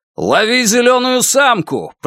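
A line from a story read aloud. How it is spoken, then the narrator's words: Shouted after someone. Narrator (Russian): прокричал Лун ей вслед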